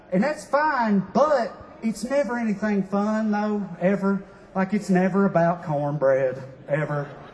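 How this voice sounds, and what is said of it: Southern US accent. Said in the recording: “sometimes people hear my accent and they get, like, interested. Like, they want to ask me questions about the South”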